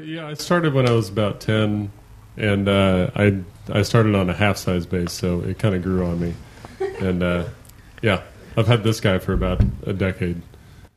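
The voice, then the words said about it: Deep low-pitched voice. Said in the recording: “You have a deep voice.”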